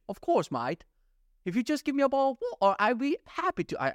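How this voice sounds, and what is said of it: Poor put-on British accent. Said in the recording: “I even replied in British... I'm terrible at British accent.”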